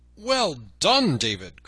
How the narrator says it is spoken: cried Robin

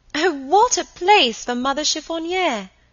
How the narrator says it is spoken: cried Helen

